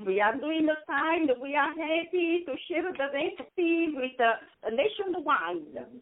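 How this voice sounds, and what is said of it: Italian accent. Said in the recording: “That's a good Italian. That's an accent from Italy? ... From Gaeta, Italy.”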